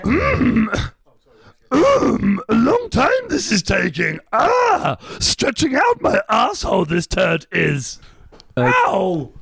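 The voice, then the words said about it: Yoda impression, inverted word order. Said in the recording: “do an impression of Yoda taking a shit”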